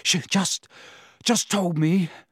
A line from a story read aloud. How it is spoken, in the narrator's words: Harry panted